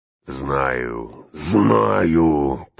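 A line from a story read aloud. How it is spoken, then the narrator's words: Growling. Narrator (Russian): прорычал он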